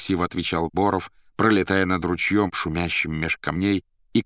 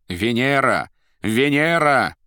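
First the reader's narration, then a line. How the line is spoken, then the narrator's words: Triumphant shout. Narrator (Russian): победно прокричала Наташа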